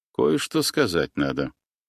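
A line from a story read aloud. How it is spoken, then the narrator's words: Quiet. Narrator (Russian): тихо молвил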